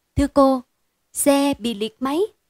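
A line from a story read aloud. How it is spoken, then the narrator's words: Trembling voice. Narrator (Vietnamese): giọng run run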